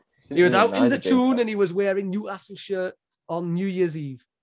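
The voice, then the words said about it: Geordie accent. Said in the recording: “Cracking Geordie accent”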